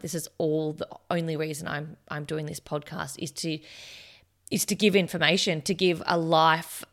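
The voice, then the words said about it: Croaky voice. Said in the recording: “as you can hear in my voice, I'm actually pretty croaky today.”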